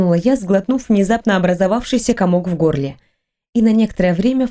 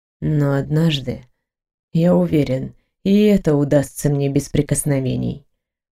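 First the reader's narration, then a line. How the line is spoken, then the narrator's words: Calm. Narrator (Russian): продолжил он спокойно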